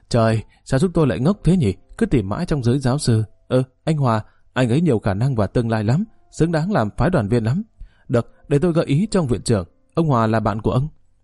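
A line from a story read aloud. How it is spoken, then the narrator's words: Stunned then laughing loudly. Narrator (Vietnamese): Ông Dương thử người ra giây lát rồi cười lớn lên và nói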